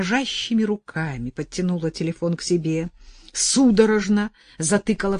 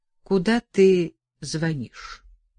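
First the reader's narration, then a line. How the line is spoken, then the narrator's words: Calm question. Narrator (Russian): спокойно спросил отец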